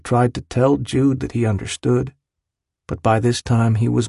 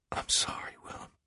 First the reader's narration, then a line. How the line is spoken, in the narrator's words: heard him whisper